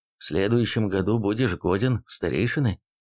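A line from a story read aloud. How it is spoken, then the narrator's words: Quiet announcement. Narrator (Russian): тихо сообщил Эйрих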